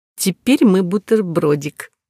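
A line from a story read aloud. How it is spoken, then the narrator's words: Giggling. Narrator (Russian): хихикнув снова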